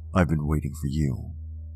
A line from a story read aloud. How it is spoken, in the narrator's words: you say in the deadliest tone you could form